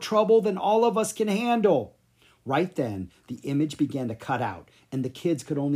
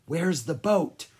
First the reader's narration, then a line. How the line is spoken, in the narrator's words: Lucas whispered